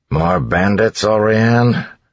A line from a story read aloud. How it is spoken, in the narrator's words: Set asked with a sigh